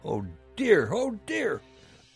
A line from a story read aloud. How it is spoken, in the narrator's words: exclaimed Papa Panoff